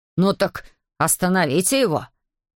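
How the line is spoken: Growl. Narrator (Russian): прорычал мистер Сток

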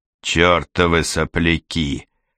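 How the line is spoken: Muttering. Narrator (Russian): пробормотал он

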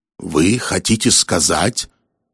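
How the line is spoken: Tight-lipped mutter. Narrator (Russian): пробормотал Кирби, жестко сжав губы

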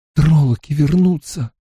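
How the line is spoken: Hoarse soothing whisper. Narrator (Russian): Тем хрипло произнес успокаивающим шепотом

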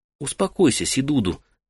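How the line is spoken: Whispered. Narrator (Russian): прошептала Фен

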